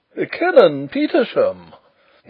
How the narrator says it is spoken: exclaimed the Professor

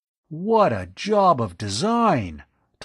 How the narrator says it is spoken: Tom exclaimed in awe

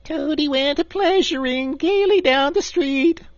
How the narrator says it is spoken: the Chief Weasel began in a high, squeaky voice

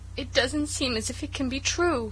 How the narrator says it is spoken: sobbed Cecily

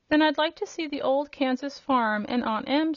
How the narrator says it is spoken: said the girl

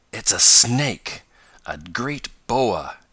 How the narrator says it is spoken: gasped Tom

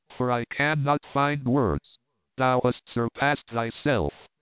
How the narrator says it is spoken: answered Petronius, coldly

